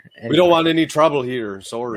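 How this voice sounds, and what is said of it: Put-on Canadian accent. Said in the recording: “I don't know what that accent was. ... That's Canadian.”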